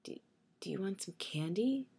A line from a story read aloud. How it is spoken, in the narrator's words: I asked, my voice starting to waver